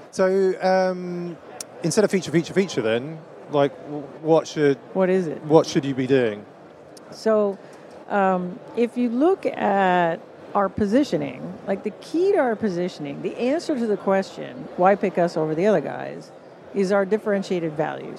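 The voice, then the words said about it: Canadian accent. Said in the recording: “my glorious Canadian accent ... You say a boot.”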